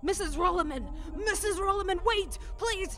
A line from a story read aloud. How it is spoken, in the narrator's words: ran down the stairs, screaming